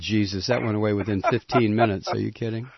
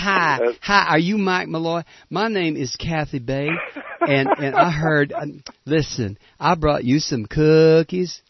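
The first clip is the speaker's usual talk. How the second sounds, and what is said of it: Put-on Southern accent. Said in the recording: “She talked like this when she showed up. ... She put on that Southern accent.”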